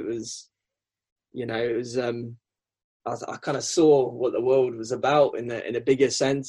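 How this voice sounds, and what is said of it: English accent with South African twang. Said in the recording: “your accent isn't actually particularly Worcestershirean, is it? There's a little bit of something else in there. ... it's a twang of South African”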